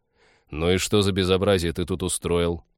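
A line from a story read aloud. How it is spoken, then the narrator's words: Weary question. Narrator (Russian): устало поинтересовался Станислав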